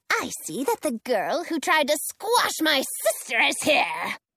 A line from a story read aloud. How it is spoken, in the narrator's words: the witch snarls